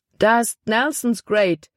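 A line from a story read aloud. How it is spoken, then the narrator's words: Exclaiming man. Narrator (German): rief er aus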